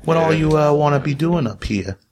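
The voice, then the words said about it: Put-on accent for a character. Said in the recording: “Accent. This accent's going to change as I find a better one.”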